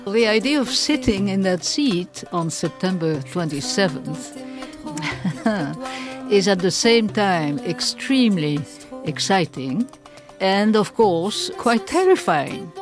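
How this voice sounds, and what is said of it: Noticeable non-native accent in English. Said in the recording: “my funny accent at times”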